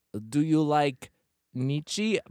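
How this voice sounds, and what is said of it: Bad put-on French accent. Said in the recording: “My accents are very bad. ... Very bad. ... She has this amazing French accent that I just did.”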